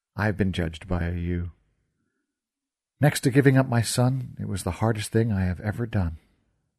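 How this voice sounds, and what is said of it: Faraway, distant voice. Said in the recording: “in a faraway voice”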